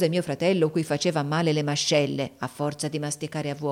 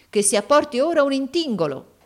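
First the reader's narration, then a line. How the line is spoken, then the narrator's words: Exclamation. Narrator (Italian): esclamò il Barmecida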